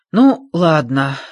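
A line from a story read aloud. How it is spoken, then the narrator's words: Relieved sigh. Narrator (Russian): с облегчением вздохнул Джордж, радуясь, что Эрик не потерялся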